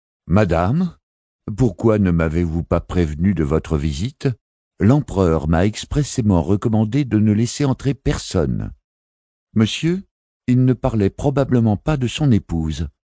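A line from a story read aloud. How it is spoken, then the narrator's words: Curt female retort. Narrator (French): répliqua-t-elle d'une voix cassante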